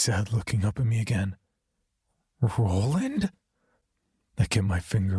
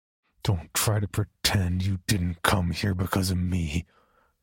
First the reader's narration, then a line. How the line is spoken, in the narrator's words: I snarled